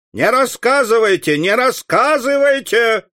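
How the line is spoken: Shouted. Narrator (Russian): закричал кто-то из присутствующих

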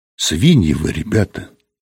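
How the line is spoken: Quiet. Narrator (Russian): тихо сказала она

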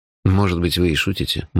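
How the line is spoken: Gloomy tone. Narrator (Russian): мрачно сказал я

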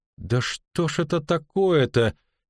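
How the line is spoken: Near moan. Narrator (Russian): чуть не простонала Мильва

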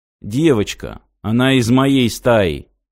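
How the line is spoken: Grim. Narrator (Russian): мрачно ответил Мартин

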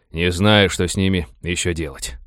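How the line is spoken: Tired. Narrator (Russian): устало сказал Винни

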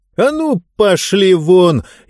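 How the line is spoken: Boy shouting again. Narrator (Russian): еще раз крикнул мальчишка

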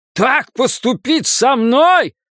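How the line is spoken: Yelled. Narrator (Russian): заорал он

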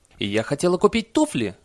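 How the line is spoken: Woman's shrill squeal. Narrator (Russian): взвизгнула одна из женщин

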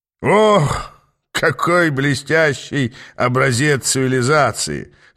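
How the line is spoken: Delighted childlike guffaw. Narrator (Russian): хохотнул, не выдержав Ааст, восторгаясь, словно ребенок, впервые попавший на ярмарку

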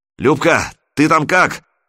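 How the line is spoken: Shouting. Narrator (Russian): крикнул он в люк

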